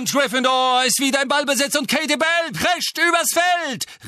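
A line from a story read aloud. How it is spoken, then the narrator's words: Bravely shouting over deafening singing. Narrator (German): rief Lee tapfer, doch der Gesang war jetzt so ohrenbetäubend, dass er sich kaum noch Gehör verschaffen konnte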